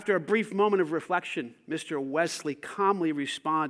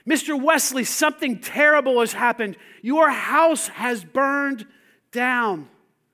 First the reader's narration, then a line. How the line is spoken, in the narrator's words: distraught young man, and the young man shouted